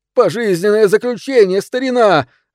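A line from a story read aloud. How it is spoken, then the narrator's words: Joyful shout into ear. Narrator (Russian): радостно закричал прямо в ухо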